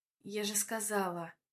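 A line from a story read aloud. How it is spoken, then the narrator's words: Displeased mutter. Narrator (Russian): бормочу недовольно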